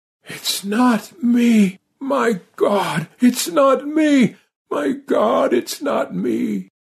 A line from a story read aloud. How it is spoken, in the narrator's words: Parsket managed to gasp out